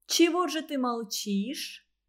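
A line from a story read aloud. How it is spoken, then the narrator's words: Gentle, insinuating question. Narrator (Russian): ласково и как-то вкрадчиво спросила Зинаида Борисовна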